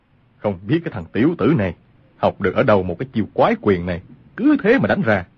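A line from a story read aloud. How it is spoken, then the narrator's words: Muttered, angry yet amused. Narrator (Vietnamese): Lương Tử Ông vừa tức giận vừa buồn cười, mắng thầm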